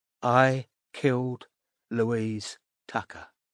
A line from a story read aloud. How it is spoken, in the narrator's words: said Creed in a soft voice